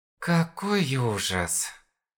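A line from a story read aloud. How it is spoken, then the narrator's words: Muttering. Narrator (Russian): Бормотал Виджи Хён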